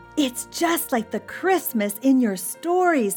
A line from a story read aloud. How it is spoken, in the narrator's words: he cried